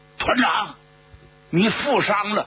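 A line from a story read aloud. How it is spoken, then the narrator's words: Guard's alarmed cry. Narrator (Chinese): 他的警卫员惊叫了一声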